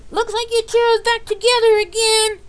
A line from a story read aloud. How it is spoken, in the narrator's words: shouted